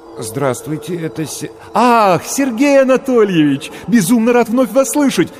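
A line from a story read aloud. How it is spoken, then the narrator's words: Joyful rapid chatter. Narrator (Russian): радостно затараторил голос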